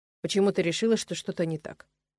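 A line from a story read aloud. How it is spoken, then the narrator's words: Calm young man. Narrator (Russian): спокойно произнес парень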